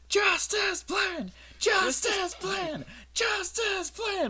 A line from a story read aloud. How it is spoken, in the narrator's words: People will yell